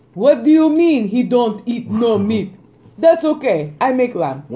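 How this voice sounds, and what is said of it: Put-on Greek accent. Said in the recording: “That was my Greek accent, apparently. Greek-British accent... My Greek accent”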